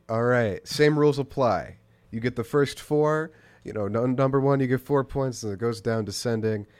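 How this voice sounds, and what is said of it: Steve Harvey impression. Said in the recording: “do an impression of Steve Harvey”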